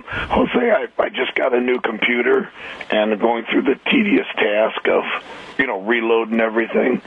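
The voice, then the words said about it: Hoarse, weakened voice. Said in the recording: “I've lost my voice. ... I got that bug.”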